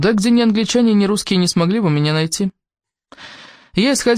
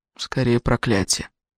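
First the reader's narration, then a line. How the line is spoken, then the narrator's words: Weary. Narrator (Russian): устало произнес наш гость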